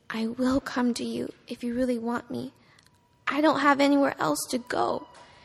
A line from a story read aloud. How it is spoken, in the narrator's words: the little girl whispered